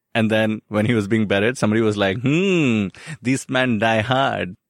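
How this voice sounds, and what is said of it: Put-on German henchman accent. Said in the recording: “That was my Hans Gruber's henchman accent ... So that's what you think German gangsters talk like.”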